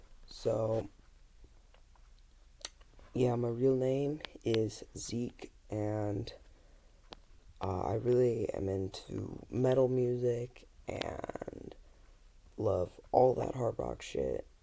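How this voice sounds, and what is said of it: Very raspy, hoarse voice. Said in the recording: “my voice is super fucking graspy. I don't know why, but it is, and it's super early, and I'm screaming.”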